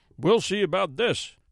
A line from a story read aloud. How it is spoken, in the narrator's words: shouted the judge